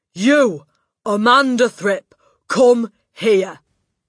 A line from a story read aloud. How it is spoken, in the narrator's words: She was shouting